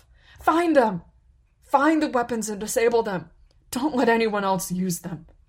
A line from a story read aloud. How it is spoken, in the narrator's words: Pana breathed out